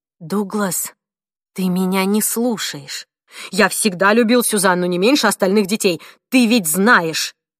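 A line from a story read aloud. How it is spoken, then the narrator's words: Snapping retort. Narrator (Russian): огрызнулся Дуглас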